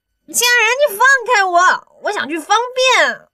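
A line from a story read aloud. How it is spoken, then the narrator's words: Strained, tearful shout. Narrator (Chinese): 刘亚楠被憋得脸红脖子粗的 急得带着哭腔喊了出来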